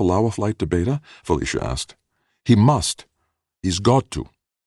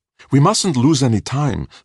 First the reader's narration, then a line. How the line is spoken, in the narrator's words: Steiner pleaded